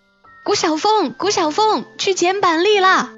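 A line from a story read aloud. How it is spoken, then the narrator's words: Calling from outside window. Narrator (Chinese): 阿丽就到我窗户外头喊我了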